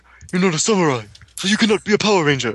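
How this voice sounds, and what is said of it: Good impression of a show character. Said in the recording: “That's a good impression of him.”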